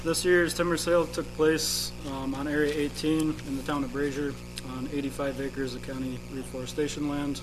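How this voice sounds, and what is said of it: Voice sounds sick. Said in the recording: “sorry for my voice. ... I'm a little under the weather today.”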